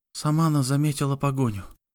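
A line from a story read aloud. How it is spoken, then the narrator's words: Whispered in ear. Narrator (Russian): шепнула на ухо куранту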